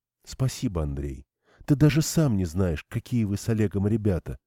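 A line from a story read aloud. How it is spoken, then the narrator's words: Quiet. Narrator (Russian): сказала Ирина тихо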